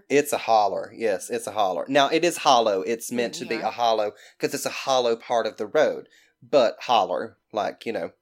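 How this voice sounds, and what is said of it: Thick Southern American accent. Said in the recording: “people just say it like with that accent ... the people I hear say it are always Southern people ... But you have a really thick accent.”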